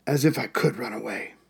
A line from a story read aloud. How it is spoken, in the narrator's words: mutter, in English